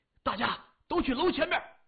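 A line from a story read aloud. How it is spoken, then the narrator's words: Hurried. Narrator (Chinese): 他急忙说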